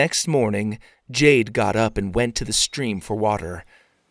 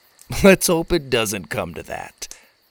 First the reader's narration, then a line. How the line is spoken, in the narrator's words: Clunk laughed